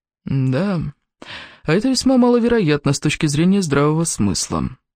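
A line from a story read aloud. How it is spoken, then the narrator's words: Dry remark. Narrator (Russian): сухо заметил мистер Холмс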